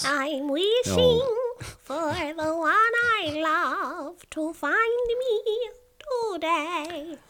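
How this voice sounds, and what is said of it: Imitates Snow White's singing voice. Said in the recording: “doing a spot on impression of Snow White”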